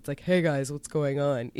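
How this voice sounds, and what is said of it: Very deep, low-energy voice. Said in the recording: “has a very, very deep voice ... low energy thing”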